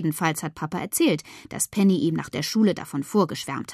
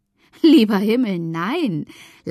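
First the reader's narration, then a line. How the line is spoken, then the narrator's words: Laughing. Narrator (German): lacht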